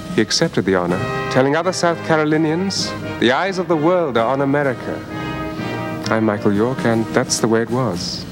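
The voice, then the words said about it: Charming British accent. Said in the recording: “that positively charming British accent”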